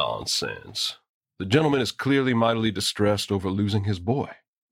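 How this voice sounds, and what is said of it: Usual voice. Nothing is said of it.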